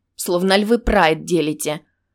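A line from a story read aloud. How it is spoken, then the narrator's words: Irritated hiss. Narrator (Russian): Она раздраженно шипела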